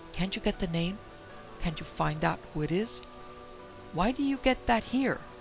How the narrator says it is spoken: asked eagerly

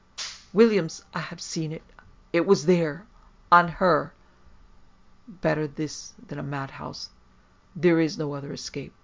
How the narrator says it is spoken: his master exclaiming

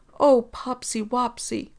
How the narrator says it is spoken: Cardigan let a low, brittle chuckle escape

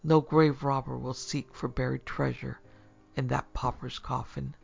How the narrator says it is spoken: Chuckling, murmured to himself

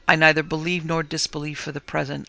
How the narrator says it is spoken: replied quietly

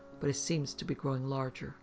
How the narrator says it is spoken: Moss's companion whispered

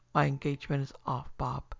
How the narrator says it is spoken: he said, trying to speak calmly, but with a tremor in his voice which he could not conceal

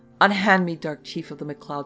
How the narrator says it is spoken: she cried

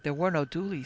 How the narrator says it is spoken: said he

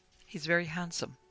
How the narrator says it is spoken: Carmine said quietly

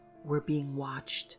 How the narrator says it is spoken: whispered breathlessly

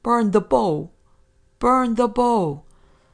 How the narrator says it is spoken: he replied, shouting

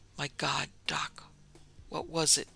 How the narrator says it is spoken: he whispered at last

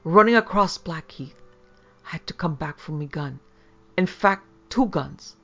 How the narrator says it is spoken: he gasped

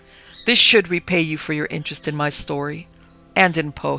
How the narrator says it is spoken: he murmured

